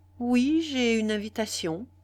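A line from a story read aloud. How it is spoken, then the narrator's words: Plain. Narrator (French): répondit Pierre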